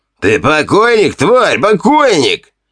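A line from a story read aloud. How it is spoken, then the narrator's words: Two addicts yelling. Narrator (Russian): Вопили два наркомана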